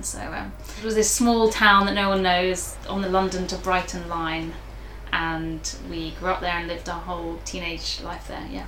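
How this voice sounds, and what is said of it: Southeast English accent. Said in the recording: “Your accent is good for broadcast journalism ... I've had people comment on my accent ... mine is a regional accent too. It just happens to be in the southeast of England region.”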